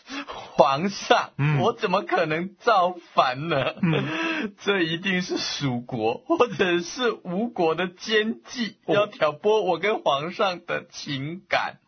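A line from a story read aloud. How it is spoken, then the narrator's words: Panicked tearful pleading. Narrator (Chinese): 司马懿…慌慌张张…跪在皇帝的面前哭诉说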